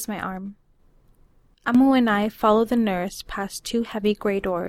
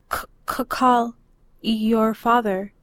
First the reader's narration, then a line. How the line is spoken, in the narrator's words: Amu stutters